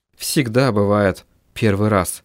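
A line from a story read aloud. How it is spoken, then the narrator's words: Muttered. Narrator (Russian): пробормотала Мэрилис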